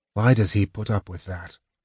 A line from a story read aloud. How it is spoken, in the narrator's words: Tanis asked softly